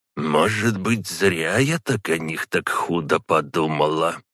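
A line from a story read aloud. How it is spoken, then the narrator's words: Muttering under breath. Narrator (Russian): пробормотала она себе под нос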